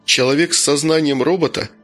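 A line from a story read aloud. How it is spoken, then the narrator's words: Plain question. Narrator (Russian): спросил капитан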